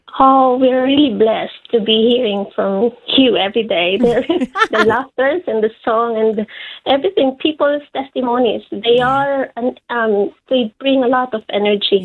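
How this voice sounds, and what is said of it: Filipino accent. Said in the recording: “you got a Filipino accent there”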